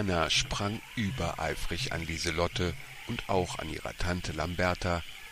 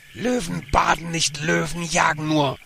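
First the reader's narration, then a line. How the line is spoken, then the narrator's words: Roaring. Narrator (German): Lamberta brüllte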